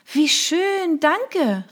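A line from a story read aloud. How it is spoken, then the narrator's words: Exclaimed. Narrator (German): rief ich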